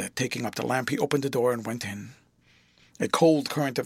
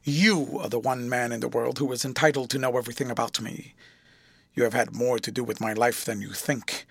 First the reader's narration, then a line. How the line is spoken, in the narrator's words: Then he added somewhat harshly